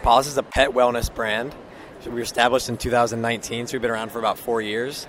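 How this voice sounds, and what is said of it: Soft, slightly strained voice. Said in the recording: “His voice is a little bit, you know, all this enthusiasm. His voice is a little bit soft.”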